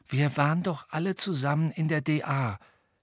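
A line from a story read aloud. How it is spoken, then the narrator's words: Quiet. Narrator (German): sagte Neville leise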